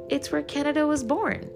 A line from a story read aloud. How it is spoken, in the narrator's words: says cheerfully